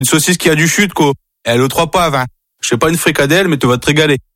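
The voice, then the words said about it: Northern French accent. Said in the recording (French): “accent du Nord”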